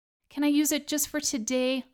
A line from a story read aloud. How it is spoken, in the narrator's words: begged